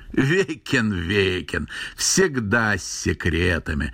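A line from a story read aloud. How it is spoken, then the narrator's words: Old man's loud laughter. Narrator (Russian): захохотал старик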